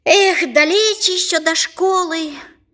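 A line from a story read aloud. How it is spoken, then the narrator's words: Sighing. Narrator (Russian): вздохнул Артем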